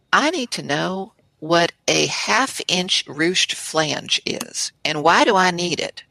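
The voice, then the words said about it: Put-on American Southern accent. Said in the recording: “So I have to say this in a Southern accent.”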